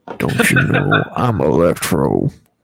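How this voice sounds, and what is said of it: Poor imitation of another person's voice. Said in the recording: “terrible Jamie Foxx impression”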